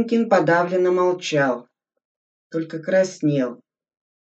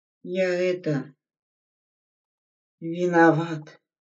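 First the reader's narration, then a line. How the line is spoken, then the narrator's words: Soldier barely audible. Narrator (Russian): еле слышно сказал солдат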